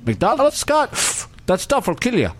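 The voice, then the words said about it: Nordic-accented impression. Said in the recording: “It's more of a Nordic accent ... why do you make me sound like I'm a Scandinavian?”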